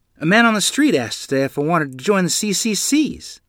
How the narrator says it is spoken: I said excitedly

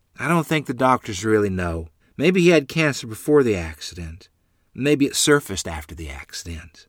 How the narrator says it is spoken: Mother replied

